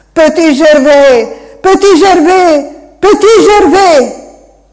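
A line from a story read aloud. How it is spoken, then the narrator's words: Cry fading into fog. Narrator (Italian): Il suo grido si spense nella nebbia, senza neppure destare un eco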